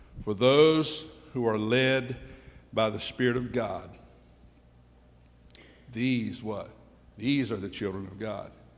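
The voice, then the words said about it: Slow, deliberate reading. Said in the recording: “So I'm going to read this slowly.”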